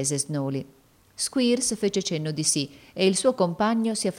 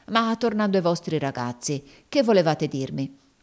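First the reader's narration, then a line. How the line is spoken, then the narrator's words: Exclaiming. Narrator (Italian): esclamò Squeers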